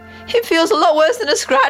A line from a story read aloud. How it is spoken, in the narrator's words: I cried